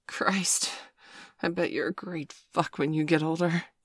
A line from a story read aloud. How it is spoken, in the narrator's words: he gasped